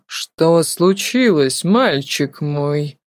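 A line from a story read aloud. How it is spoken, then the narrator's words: Almost tender, old professor. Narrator (Russian): почти ласковым голосом произнес профессор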